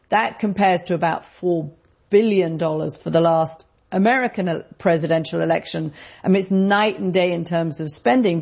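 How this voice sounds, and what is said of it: British accent. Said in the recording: “you may have guessed by my accent, I'm not from around here ... British context”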